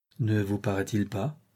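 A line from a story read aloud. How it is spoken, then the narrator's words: Softly. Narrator (French): dit doucement Leven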